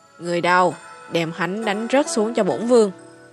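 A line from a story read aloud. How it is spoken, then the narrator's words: Cold command. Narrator (Vietnamese): Sở Bá Ninh lạnh lùng nói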